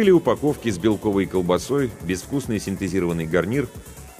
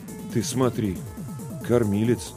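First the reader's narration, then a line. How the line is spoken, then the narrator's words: Bewildered mutter. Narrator (Russian): растерянно пробормотал Ларионов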